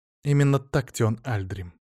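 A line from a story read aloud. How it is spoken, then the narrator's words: Sad. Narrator (Russian): печально произнесла Леомара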